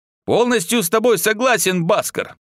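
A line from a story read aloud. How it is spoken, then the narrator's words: Joyful. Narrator (Russian): радостно сказал Тейс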